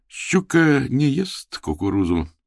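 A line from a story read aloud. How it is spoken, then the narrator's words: Self-important. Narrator (Russian): с важным видом проговорил Див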